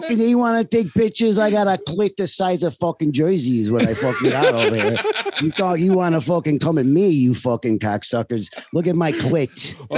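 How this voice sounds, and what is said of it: Stereotyped Italian-American Guido accent. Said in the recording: “You're talking like a stupid Guido.”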